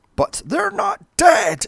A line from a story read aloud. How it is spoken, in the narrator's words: she screams